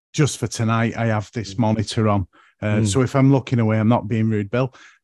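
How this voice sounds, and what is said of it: Northern English Lancashire accent. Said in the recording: “I was trying to work out your accent ... there's a bit of Lancashire in there”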